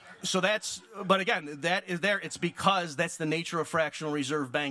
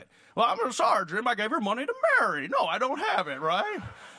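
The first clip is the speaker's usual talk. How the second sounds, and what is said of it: Imitates another person's voice. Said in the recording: “the whole point of that was to do my impression”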